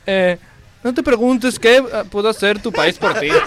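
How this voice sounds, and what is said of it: Put-on Galician accent, sounding Portuguese. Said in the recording (Spanish): “Venga, ahora en gallego. Lee la frase en gallego. ... Es que me varían los acentos. ... Ah, pero ¿era gallego en serio? ... No, no, yo creo que era más portugués.”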